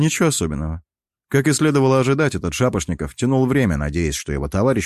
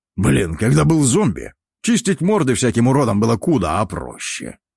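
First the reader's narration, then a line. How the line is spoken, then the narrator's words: Old man grumbling. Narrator (Russian): проворчал старый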